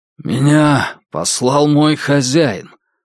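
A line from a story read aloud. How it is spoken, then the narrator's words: Hoarse, nervous. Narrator (Russian): сказал Кай, голос которого прозвучал хрипло и нервно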